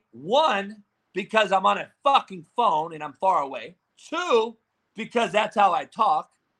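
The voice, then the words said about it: Loud yelling voice. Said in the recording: “mad because he's yelling. No, I'm yelling,”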